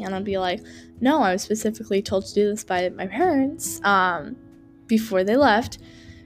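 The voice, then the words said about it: Congested, sick-sounding voice. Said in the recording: “sorry for my voice. ... I have been feeling a little sick. ... I get like allergies around this time of season, like stuffy throat and like stuffy”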